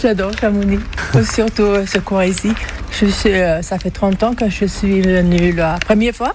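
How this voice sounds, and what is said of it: Swedish accent in French. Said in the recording (French): “d'où vous vient cet accent? ... Suédoise.”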